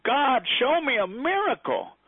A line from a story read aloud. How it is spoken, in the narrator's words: The child shouted